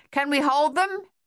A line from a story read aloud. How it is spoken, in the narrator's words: Captain Egan shouted to Thaddeus